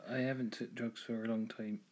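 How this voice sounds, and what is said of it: Speaks in a put-on accent. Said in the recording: “I don't know why I said it in that accent.”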